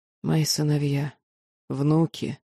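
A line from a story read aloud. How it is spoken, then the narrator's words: Quiet professor. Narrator (Russian): тихо произнес профессор Лориэс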